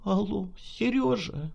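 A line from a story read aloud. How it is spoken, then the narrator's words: Trembling call. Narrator (Russian): Дрожащим голосом позвала она брата ФСБшника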